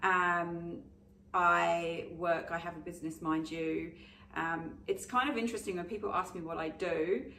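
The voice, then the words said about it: English accent. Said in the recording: “I'm originally, you can probably tell, a little bit of a English twang.”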